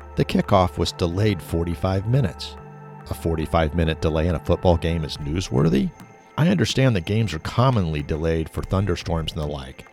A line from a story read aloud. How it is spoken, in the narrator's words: Miss Rader calmly responded